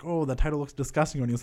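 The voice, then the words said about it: Bad imitation Irish accent. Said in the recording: “that was a really bad Irish accent you did”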